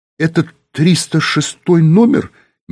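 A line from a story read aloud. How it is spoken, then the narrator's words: Uncertain question. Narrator (Russian): неуверенно спросил Юра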